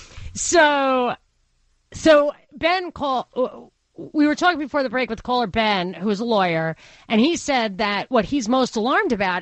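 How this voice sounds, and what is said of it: Strong Brooklyn accent. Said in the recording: “my Brooklyn accent is, like, ... getting stronger. ... The W's are, the invisible W's are popping up and all the A words.”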